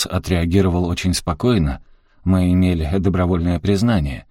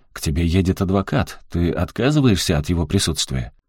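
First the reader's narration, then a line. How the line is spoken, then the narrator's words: Manic chuckle. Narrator (Russian): Кэрри было не узнать, он был словно одержимый, хохотнул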